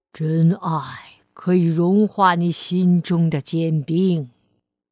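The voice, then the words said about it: Deep, rich old man's voice. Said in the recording (Chinese): “他用浑厚的声音说道”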